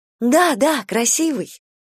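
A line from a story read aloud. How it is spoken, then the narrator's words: Joyful repetition. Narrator (Russian): она радостно повторила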